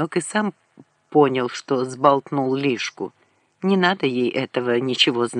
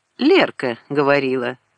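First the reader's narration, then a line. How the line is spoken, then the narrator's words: Lazy drawl. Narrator (Russian): сказал он лениво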